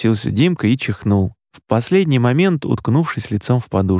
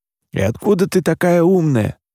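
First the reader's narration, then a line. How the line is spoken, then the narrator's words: Muttering. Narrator (Russian): пробурчал Димка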